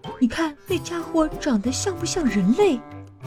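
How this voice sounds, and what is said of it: Whispered gossiping voice. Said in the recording (Chinese): “小声议论着”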